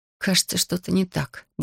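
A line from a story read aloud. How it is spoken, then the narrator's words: Mumbling. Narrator (Russian): бормочу я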